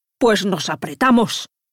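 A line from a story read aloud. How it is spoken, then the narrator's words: Angry roar. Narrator (Spanish): rugió Mijail enfadado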